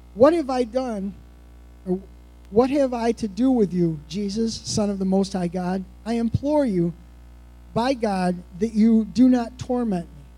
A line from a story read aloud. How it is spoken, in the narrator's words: he cried out in a loud voice and said